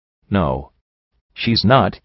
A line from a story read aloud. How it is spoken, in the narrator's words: I said softly